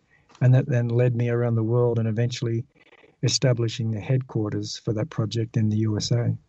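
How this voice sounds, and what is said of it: Mild Australian accent. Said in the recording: “I'm originally from Australia. ... I think we could tell that. ... My accent is not so strong.”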